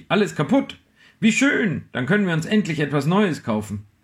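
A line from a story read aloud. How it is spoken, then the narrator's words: Called out. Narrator (German): rief sie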